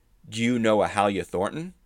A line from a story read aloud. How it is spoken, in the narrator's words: asked